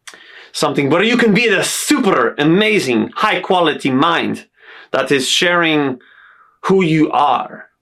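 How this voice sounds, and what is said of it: Self-invented accent. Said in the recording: “tone of voice, a character, an accent on my words, as you can hear right now ... some sort of accent that I just created for myself”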